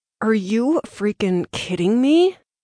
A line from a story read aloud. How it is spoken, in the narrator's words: Through clenched teeth, she asked